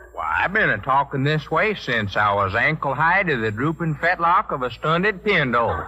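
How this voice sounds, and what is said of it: Put-on Western drawl. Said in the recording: “this Western drawl”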